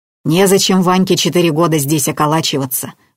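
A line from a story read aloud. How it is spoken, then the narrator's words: Old woman snorting. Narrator (Russian): фыркнула старуха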